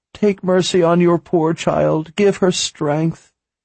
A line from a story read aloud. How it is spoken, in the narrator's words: she cried